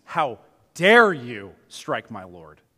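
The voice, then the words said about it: Stern dad voice. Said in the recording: “That's my dad voice”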